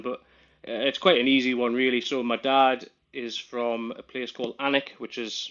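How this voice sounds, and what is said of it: Regional northern English accent. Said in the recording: “That's an interesting accent I hear there... when people hear the accent, they sort of look totally puzzled... you don't actually support Newcastle”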